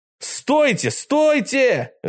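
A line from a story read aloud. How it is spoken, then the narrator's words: Boy yelling with full force. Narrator (Russian): заорал мальчик изо всех сил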